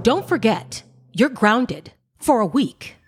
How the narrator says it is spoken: she said sternly

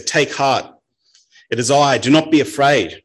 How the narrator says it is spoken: Jesus called out to them and he said

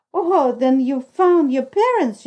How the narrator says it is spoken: cried

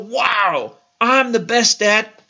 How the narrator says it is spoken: we just stand there and yell

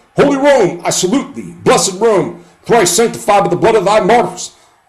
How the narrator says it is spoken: he exclaimed

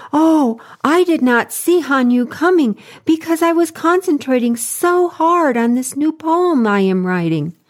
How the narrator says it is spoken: The poet pleaded

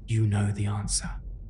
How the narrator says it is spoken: The prisoner merely smiled, whispered

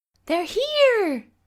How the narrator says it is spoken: Allie exclaimed from the front of the house

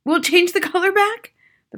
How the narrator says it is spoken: the father said anxiously

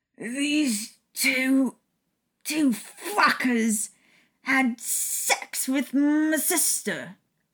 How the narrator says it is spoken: James slurred from the corner of the room

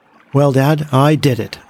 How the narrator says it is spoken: I said triumphantly

